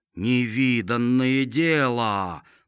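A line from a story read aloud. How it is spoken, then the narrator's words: Drawn out. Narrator (Russian): протянул Лук-Порей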